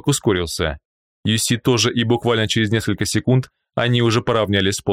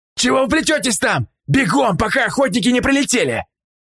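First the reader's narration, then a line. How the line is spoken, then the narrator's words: Yelling. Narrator (Russian): заорал им Полос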